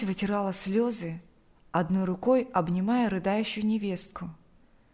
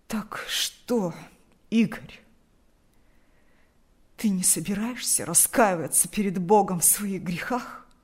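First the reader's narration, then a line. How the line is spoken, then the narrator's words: Hoarse, agitated voice. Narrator (Russian): От волнения голос отца хрипел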